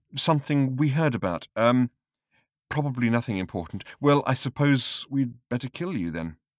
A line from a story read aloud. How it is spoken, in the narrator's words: continued the cricketer uneasily